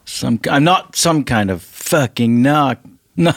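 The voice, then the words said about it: Sudden Kentucky accent. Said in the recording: “is changing in front of us. What kind of accent is that, bro? ... I'm from Kentucky, so I sometimes slip out and in and out of Kentucky”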